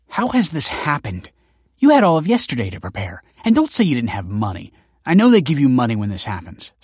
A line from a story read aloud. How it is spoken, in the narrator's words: snapped Kelsey